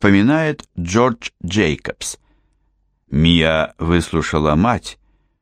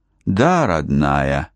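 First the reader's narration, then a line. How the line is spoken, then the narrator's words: Sighing. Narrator (Russian): вздохнула Морин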